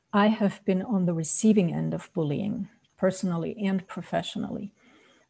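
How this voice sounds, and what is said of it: Austrian accent. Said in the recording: “growing up in Austria, that's where the accent is from”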